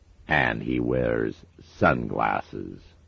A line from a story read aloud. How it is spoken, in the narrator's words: sneered Haster